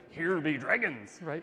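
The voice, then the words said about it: Pirate voice. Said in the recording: “in a pirate voice”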